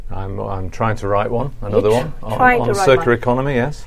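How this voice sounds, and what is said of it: British accent. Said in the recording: “As you hear on your dialect, you're from the UK”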